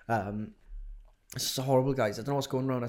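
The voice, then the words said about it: Sick, congested voice. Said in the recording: “Maybe you can tell by my voice, but I'm ill, really ill at the moment.”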